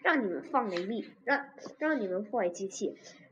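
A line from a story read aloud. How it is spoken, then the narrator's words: Angry gritted-teeth mutter. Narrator (Chinese): 恐龙们咬牙切齿地嘟囔着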